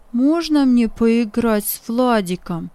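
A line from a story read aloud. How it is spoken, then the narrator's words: Plain question. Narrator (Russian): спросил он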